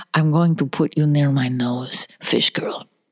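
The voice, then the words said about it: Put-on Russian accent. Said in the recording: “See, I can do Russian. You like Russian accent?”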